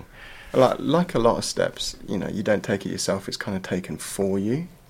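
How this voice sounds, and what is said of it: English accent. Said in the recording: “a bit of a boomerang pom. Obviously, with the accent, we can kind of hear that.”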